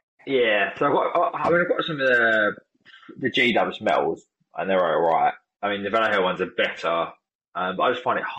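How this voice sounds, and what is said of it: Southern English accent. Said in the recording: “I'm from proper south of England, so I've got a proper like south accent ... I just sound like Del Boy”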